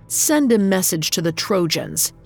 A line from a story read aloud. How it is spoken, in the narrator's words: barked